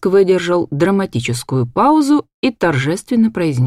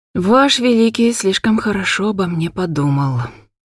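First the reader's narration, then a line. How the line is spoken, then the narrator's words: Gloomy reply. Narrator (Russian): мрачно отозвалась я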